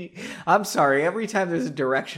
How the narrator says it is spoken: I laugh

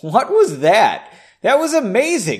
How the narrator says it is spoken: exclaimed

